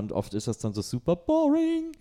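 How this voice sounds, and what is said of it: Words said in a raised pitch. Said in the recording (German): “Warum gehst du jetzt so hoch mit der Stimme? ... Ist so eine Art Textmarker, das so hochzusagen.”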